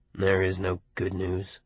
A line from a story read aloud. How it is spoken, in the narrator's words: Buddy said in a low, morose, grieving voice